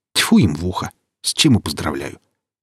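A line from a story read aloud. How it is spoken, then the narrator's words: Gloomy grumble. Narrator (Russian): буркнул Велес, с тоской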